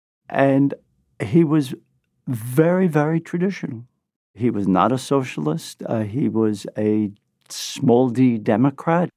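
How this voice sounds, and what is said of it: Brooklyn accent. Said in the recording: “This is my Brooklyn accent.”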